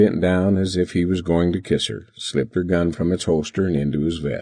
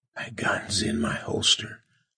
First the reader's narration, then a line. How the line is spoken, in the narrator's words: whispered